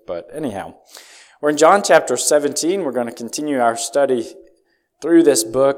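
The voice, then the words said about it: Slightly strained voice. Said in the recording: “my voice is a little strained, evidently”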